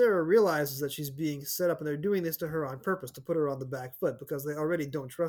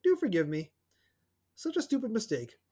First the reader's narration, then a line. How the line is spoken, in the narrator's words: Smiling to conceal her annoyance, she said sweetly